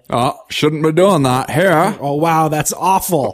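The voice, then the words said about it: Put-on Maine accent. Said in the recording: “that's not bad. That's not even Murder She Wrote level main accent”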